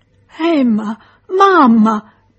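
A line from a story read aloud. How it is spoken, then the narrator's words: Placating whimper. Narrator (Italian): piagnucolava Charles per pacificarle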